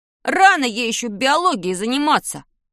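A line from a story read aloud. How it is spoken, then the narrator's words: Grumbling. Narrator (Russian): проворчал он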